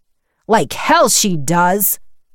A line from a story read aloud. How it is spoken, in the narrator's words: Walt's booming voice